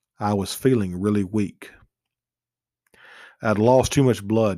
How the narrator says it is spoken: he said

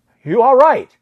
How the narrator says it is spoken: I shout

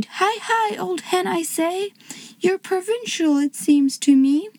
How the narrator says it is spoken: he cried

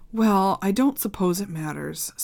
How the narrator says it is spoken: sighed Hermione

